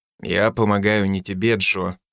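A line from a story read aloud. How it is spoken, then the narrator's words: Gloomy reply. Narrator (Russian): ответил я мрачно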